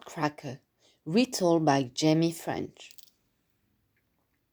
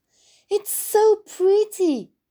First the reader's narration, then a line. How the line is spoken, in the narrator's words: cried Mary